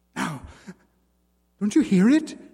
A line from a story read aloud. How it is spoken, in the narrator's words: She cried with an inarticulate gasp